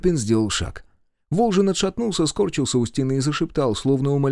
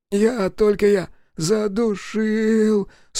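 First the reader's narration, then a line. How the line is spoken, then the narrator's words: Trembling whimper. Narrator (Russian): скулил Сашка, трясясь осиновым листом на ветру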